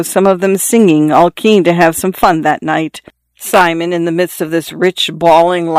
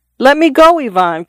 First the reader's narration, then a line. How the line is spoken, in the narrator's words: cried Simon